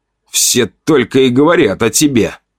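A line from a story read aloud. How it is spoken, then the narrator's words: Hiss. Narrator (Russian): прошипел Шант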